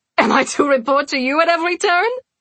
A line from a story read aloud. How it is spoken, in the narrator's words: Celine laughed again